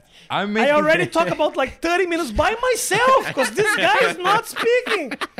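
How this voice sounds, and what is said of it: Speaks with an accent. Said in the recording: “I couldn't understand you over that accent ... Of course you have an accent ... Your accent's perfect.”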